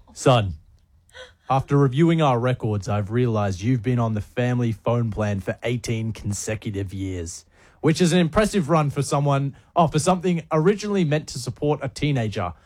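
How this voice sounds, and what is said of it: Put-on dad voice. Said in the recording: “Should I do a dad voice? ... Yeah, do a dad voice.”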